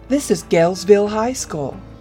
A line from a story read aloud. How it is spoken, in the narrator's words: cheerily exclaimed, shouting into the void before him, as if he was going to get a cheer in response